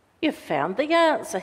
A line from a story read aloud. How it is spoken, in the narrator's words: he said